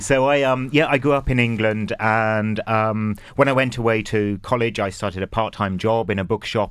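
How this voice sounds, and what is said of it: English accent. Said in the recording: “From your accent, you came here to join us from our neighbouring island ... the accent has never changed ... I can hear the brogue”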